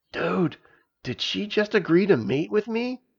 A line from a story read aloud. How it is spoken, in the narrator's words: He whispered to Stavius